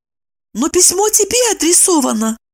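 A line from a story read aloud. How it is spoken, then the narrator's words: Exclaimed. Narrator (Russian): воскликнула Евдокия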